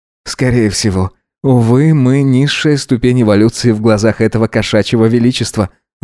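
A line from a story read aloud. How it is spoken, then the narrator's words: Sighing. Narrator (Russian): вздохнул Гидеон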